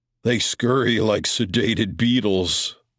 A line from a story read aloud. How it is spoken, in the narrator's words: the Alpha said with a low chuckle